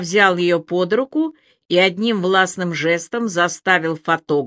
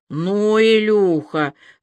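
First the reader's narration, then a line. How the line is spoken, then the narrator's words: Disappointed drawl. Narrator (Russian): разочарованно протянул один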